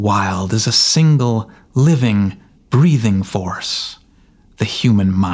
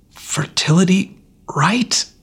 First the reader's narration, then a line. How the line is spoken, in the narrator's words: he choked